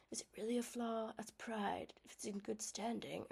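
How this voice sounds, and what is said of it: Terrible Mr. Darcy-style accent. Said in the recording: “I'm kind of doing like a Darcy moment ... that was a terrible accent.”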